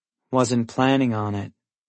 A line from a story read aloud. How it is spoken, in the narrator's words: Mia says dryly